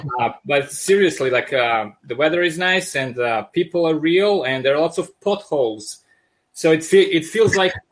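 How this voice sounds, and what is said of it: Thick Serbian accent. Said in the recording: “I'm originally from Serbia. That's why I have this uh, thick accent. I sound like Russian mobsters in Hollywood movies.”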